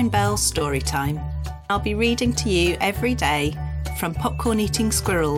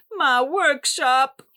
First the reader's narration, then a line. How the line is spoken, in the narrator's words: sobbed